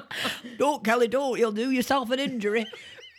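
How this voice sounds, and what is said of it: Northern English accent impression. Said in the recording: “it's not a really bad impression ... That's ... northern impression.”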